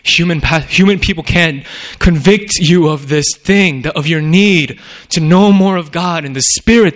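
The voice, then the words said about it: Raised, loud preaching voice. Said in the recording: “I'm raising my voice here”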